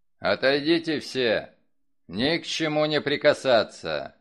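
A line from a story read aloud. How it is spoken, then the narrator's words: Loud command. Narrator (Russian): впервые за это утро громко приказал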